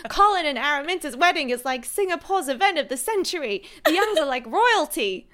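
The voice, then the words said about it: Weird put-on New York accent. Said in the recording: “I'm like trying to do a weird New York accent.”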